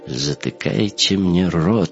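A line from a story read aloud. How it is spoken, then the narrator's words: Thoughtful drawl. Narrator (Russian): задумчиво протянул Беневский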